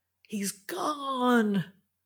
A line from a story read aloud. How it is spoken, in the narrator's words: shouted Finn